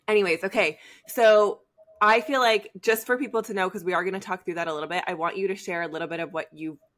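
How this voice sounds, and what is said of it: Voice cutting in and out. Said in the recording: “my voice is going to keep going in and out. So I'm sorry if I have to cough”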